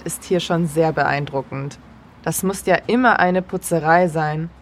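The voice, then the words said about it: German with slight Swiss German accent. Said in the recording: “you turned up the Swissometer a little bit there ... you're still speaking in German. You're not speaking in Swiss German, but just a little bit of a Swiss German accent there”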